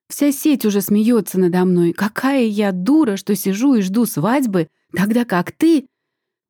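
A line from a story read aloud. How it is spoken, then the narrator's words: Shriek. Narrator (Russian): Взвизгивает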